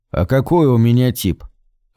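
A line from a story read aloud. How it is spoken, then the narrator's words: Even-toned male question. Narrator (Russian): Ровным тоном поинтересовался он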